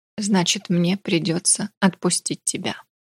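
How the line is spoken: Hoarse broken whisper, female. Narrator (Russian): прошептала в раз севшим голосом

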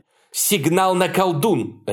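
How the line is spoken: Barking. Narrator (Russian): рявкнула Хонор

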